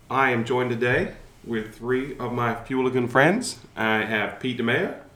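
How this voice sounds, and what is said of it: Slightly sick-sounding voice. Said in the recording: “I am a little bit sick and you can hear that in my voice”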